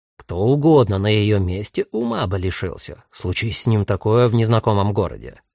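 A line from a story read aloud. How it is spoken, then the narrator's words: Angry. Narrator (Russian): сердито говорит Нехиси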